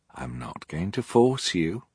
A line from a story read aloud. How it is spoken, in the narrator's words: Ishmael said gently